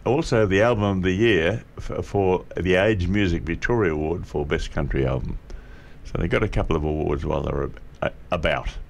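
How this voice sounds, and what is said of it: Croaky, hoarse voice. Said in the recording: “Excuse my voice a little bit today, everybody. It's a little bit croaky.”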